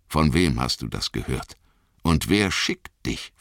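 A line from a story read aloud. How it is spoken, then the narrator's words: Plain. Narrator (German): fragte ich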